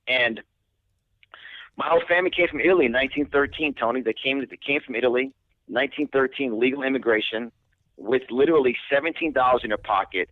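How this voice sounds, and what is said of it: New York accent. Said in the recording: “when you hear my accent, I'm from New York”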